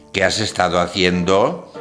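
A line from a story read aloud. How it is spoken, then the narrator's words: Plain. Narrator (Spanish): preguntó Mr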